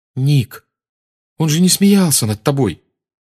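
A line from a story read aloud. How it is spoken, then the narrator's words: Exclaiming. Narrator (Russian): воскликнула Гермиона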